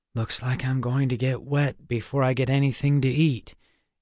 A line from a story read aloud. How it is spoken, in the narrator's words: Alex said with a sigh